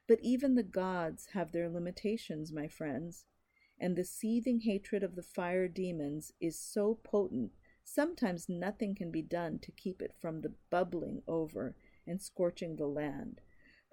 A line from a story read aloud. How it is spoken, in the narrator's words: Her father sighed heavily